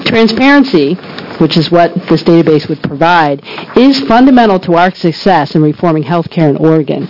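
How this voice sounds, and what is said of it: Sick, strained voice. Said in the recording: “Excuse my voice, I'm nursing a cold.”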